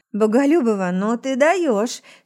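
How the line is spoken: Hoarse whisper. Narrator (Russian): шепчу хрипло

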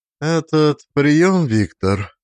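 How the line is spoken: Even, level voice. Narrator (Russian): сказала она ровным голосом

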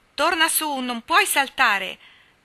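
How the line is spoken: Shouted from below. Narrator (Italian): gridò Ned di sotto

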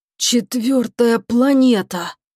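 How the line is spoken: Hoarse voice. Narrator (Russian): хрипло выговорил Чебуран

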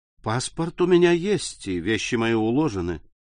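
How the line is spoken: Soundless, calm voice. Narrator (Russian): сказал Морель беззвучно, спокойным голосом

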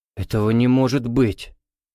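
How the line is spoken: Fearful breathless gasp. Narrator (Russian): в страхе выдохнул Чернопятов

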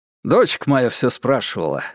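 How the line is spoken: Chuckling. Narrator (Russian): хохотнул Шестаков

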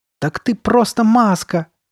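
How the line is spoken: Loud laughter. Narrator (Russian): громко рассмеялась она

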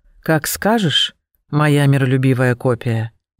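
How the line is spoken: Sighing. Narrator (Russian): вздохнула Катрина

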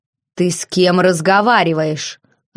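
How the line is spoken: Growled. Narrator (Russian): рыкнул герцог

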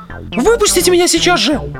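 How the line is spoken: Shriek. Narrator (Russian): взвизгнула Джоан

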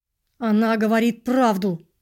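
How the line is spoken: Through clenched teeth. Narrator (Russian): сквозь зубы сказал я

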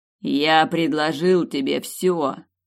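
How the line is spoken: King barking. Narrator (Russian): рявкнул король

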